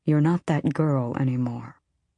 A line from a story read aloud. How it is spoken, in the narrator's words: he said softly